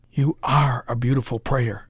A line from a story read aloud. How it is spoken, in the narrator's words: whispered Parker